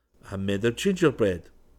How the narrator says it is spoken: said John

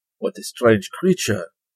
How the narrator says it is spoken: exclaimed the prince thoughtfully

